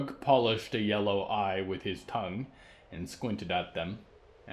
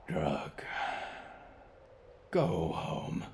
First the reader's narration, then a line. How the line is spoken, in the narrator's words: Diggory sighed